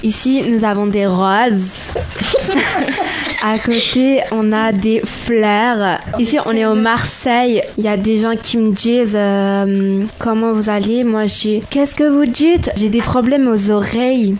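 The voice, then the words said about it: Put-on Marseille French accent. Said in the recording (French): “L'accent marseillais”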